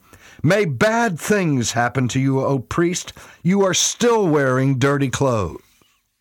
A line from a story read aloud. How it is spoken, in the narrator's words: Malice stood up and shouted